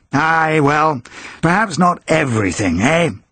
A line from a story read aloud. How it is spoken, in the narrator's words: chuckled